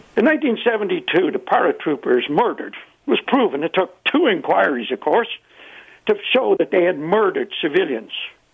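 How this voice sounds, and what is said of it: Irish accent. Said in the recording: “in Ireland, you can hear my accent.”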